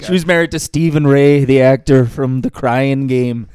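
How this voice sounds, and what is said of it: Put-on Irish accent. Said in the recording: “I think that's his Irish accent. ... We think that was your Irish accent.”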